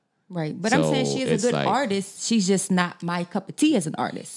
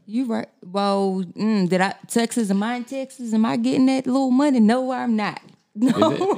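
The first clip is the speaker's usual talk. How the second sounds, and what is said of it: Sudden put-on Southern accent. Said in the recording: “She just had a flip of Southern accent”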